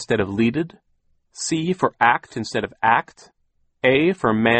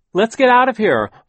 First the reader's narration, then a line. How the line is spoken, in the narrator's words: Violet shouted over the noise of the thunder